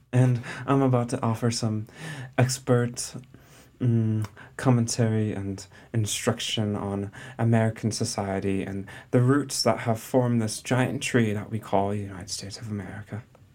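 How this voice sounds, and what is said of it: Pretentious put-on accent. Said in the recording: “I don't know why I have this accent ... we sound quite pretentious”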